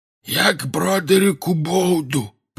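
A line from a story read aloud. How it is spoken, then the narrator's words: Hoarse wheeze. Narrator (Russian): просипел он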